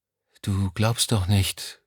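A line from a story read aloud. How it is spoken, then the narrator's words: Quiet speech. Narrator (German): sagte sie schließlich leise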